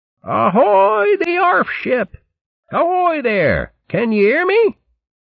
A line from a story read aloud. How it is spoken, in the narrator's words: he called out in a quavery voice